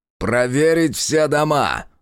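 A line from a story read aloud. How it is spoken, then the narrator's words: Barked. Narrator (Russian): рявкнул Волков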